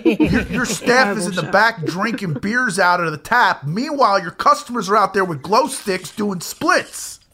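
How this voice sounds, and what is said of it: Imitates another person's voice. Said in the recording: “That's my John Taffer impression.”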